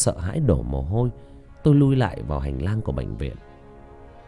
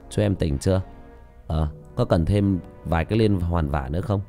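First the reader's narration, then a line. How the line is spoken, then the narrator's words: Smiling speech. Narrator (Vietnamese): Tôi mỉm cười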